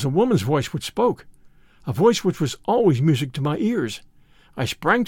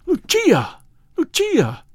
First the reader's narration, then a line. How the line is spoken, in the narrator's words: I cried